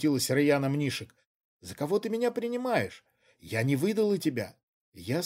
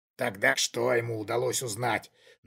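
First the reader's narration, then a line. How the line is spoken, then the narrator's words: Tense question. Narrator (Russian): напряженным голосом спросил Кшиштоф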